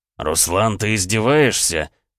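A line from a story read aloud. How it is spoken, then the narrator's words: Barked. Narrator (Russian): рявкнул Гаранин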